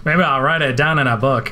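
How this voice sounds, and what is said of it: Imitates another person's voice. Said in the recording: “my terrible Harrison Ford impression”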